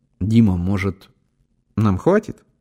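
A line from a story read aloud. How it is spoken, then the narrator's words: Timid rustling whisper. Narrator (Russian): робко прошелестел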